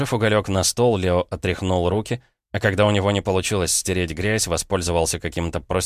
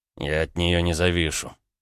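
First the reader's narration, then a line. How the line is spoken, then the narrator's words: Muttered. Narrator (Russian): пробормотал Ромка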